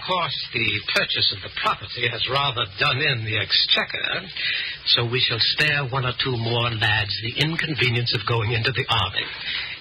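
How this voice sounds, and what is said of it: Theatrical Shakespearean stage accent. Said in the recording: “the Avon accent”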